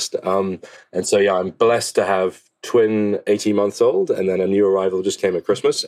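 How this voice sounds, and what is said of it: Husky, sick-sounding voice. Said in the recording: “hear the muskiness in my voice ... the home is a cesspit of disease at the moment”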